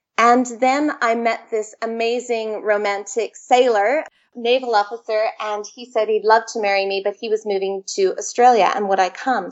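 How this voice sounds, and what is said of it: Canadian English accent. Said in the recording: “I'm actually Canadian, as you can tell from my accent.”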